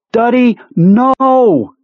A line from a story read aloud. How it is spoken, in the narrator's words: screamed